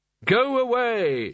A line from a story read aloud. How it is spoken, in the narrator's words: shouted the wizards, some of them collapsing at the sheer subtlety of the humour